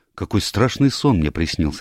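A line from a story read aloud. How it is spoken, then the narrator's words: Plain. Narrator (Russian): сказал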